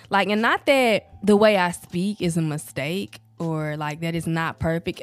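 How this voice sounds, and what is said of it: Southern country accent. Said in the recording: “I really can hear the southern, the countryness of my accent”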